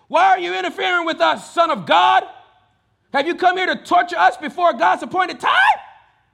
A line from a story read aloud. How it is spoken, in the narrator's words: They began screaming at him